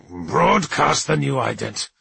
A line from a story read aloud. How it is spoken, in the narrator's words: he snarled, tasting again the pain of retreat